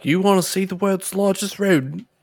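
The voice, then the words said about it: Put-on, vaguely Australian-sounding voice. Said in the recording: “I don't know why that's the voice I use. ... that wasn't an Australian accent,”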